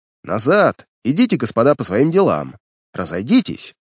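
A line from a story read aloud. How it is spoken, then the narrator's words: Gruff shouting. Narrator (Russian): покрикивал он своим грубоватым голосом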